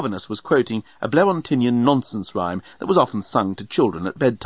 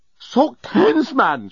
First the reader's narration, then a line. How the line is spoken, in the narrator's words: shouted the journalist